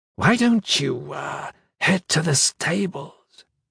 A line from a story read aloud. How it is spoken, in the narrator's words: In a husky voice whispered